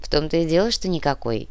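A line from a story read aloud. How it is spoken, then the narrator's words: Sad reply. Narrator (Russian): грустно ответил Нав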